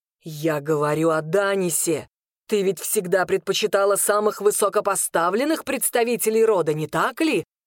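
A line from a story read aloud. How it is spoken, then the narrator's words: Hoarse laughing. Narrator (Russian): хрипло хохотнул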